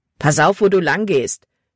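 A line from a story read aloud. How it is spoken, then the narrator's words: Rough voice. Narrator (German): sagte er rau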